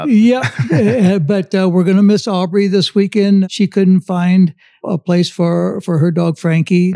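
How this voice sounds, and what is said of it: Raspy, rough voice. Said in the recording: “I'm a little raspy. My voice has been a little rough the last couple of days”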